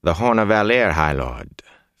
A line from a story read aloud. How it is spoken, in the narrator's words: Thane said smoothly, pleased